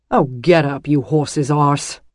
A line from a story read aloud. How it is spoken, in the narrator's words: Dylan's ... he snapped